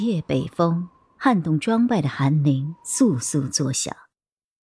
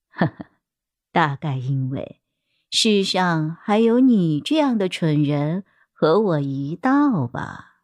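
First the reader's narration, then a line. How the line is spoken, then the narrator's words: Gentle, smiling. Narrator (Chinese): 林君微微一笑，温柔道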